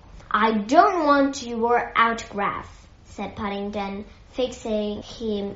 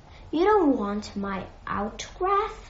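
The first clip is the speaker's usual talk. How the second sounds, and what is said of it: Surprised voice. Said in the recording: “in a surprised voice.”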